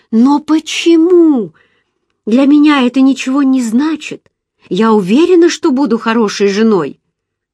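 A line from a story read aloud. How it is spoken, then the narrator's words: Anguished exclamation. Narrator (Russian): я воскликнула с тоской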